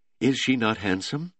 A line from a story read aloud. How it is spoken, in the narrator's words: Simone asked